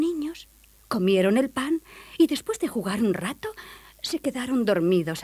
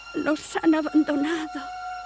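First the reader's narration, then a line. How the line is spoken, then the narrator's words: Sobbing. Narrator (Spanish): sollozaba Gretel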